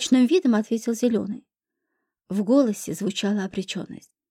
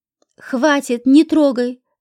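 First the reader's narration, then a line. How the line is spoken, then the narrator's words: Desperate shout. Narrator (Russian): закричал зеленый в отчаянии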